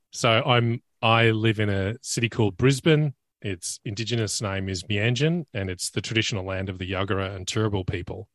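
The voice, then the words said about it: Australian accent. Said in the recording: “David's accent's a little different than mine ... I'm dialing in from the great down under. I'm in Australia.”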